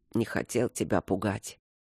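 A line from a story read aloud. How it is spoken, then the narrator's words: Sleepy mumble. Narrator (Russian): пробормотал он, уже засыпая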